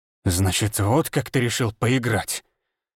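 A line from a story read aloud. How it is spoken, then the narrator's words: Hissed through teeth. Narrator (Russian): Прошипел он сквозь зубы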